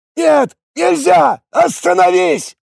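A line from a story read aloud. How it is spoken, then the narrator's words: Yelling. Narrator (Russian): заорал он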